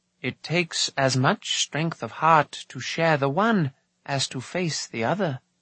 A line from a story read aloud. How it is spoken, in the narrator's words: Dalban replied gently